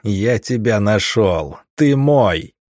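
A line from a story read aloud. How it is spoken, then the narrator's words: Joyful growl. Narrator (Russian): Я со всей радостью мира в голосе зарычал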